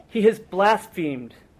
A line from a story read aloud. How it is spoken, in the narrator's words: Caiaphas tore his robe and he cried out